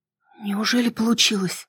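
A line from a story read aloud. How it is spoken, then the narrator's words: Excited whisper. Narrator (Russian): прошептала я взволнованно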